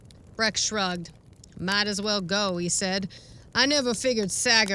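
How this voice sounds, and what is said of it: Usual voice. Nothing is said of it.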